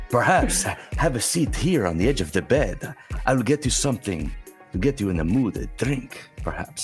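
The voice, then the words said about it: Antonio Banderas accent impression. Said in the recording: “that Antonio Banderas accent”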